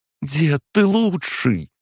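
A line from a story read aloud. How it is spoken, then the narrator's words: Exclaim. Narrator (Russian): воскликнула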